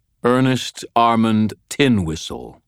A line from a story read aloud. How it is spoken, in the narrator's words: Morgan thundered in a tone of absolute authority